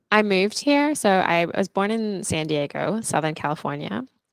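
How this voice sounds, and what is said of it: Australian accent with American twang. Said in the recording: “that American twang is a little bit stronger ... there's definitely like a lot of Australian in there, but I do get like those twangs”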